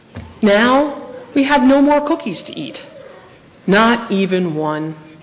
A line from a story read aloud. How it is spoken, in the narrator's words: Toad said sadly